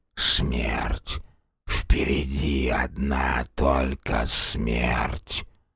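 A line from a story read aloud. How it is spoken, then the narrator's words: Barely audible, clear old man. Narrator (Russian): Старик едва слышно, но вполне разборчиво произнес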